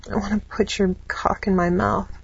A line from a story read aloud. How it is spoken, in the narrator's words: whined into his ear